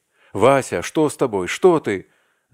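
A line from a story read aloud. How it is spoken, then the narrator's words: Alarmed shout. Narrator (Russian): закричал он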